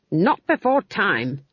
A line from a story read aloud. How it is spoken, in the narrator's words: she snapped